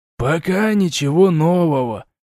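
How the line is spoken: Sigh. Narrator (Russian): вздохнул проф

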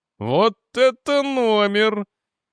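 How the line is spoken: Giggle. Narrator (Russian): хихикнул броский помощник

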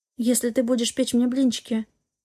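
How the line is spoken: Strangled whisper. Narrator (Russian): сдавленно прошептала та

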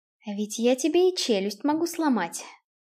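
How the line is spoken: Quiet, menacing. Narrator (Russian): тихо сказал Киган

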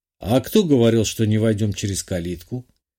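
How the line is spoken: Amused snort. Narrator (Russian): хмыкнул

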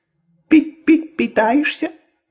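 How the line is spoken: Squeaky voice. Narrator (Russian): пропищал голос

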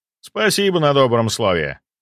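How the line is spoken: Snorting. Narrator (Russian): Хмыкнул я

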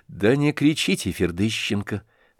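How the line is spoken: Low voice, disgusted. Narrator (Russian): с отвращением заметил ему вполголоса Птицын

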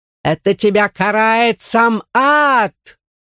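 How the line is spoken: Screaming in agony. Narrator (Russian): Нина закричала от нестерпимой боли

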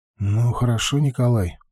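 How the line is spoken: Sighed. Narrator (Russian): вздохнул

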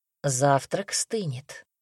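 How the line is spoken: Quiet reminder. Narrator (Russian): тихо напомнил Казимир

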